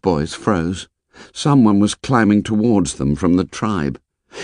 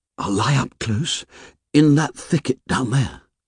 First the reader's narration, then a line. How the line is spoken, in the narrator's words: he whispered